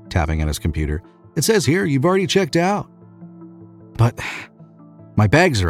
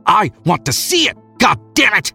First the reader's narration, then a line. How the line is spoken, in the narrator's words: he shouted